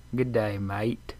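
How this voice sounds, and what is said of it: Put-on Australian accent. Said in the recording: “Say good day, mate, in an Australian accent.”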